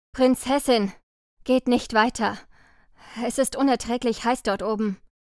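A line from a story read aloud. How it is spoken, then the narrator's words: Knight calling, panting. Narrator (German): Ein Ritter rief keuchend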